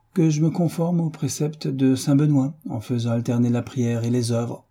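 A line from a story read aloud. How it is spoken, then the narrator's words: Cheerful. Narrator (French): dit-il gaiement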